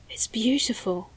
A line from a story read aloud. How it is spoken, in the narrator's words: breathed